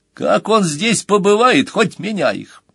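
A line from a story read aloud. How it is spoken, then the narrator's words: Laughing. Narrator (Russian): Джонни снова засмеялся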